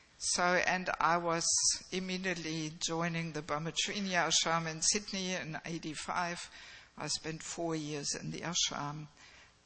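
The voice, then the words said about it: Mixed Australian and German accent. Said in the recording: “people often can't work out my accent. So it's a mix, bit of Aussie is in there, and but also a little bit of German.”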